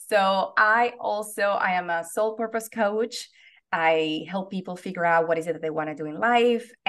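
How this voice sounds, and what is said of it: Venezuelan accent. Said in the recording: “I am originally from Venezuela ... I have not lost the accent ... I still have an accent”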